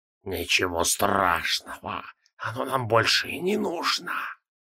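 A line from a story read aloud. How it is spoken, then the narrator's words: Insinuating hiss from inside. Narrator (Russian): донеслось откуда-то изнутри вкрадчивое шипение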